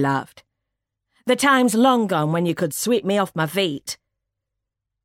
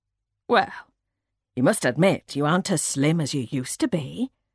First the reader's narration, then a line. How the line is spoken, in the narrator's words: she answered kindly